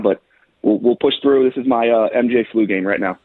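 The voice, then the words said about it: Deeper, sick-sounding voice. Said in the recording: “If my voice sounds a little bit deeper ... I'm just a little bit sick right now”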